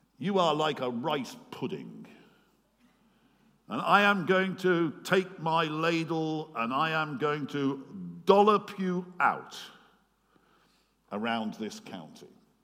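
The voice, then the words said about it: Broad Oxfordshire accent. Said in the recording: “Broad Oxfordshire accent.”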